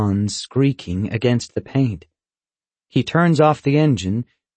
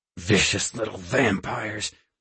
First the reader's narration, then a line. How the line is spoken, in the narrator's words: my father growls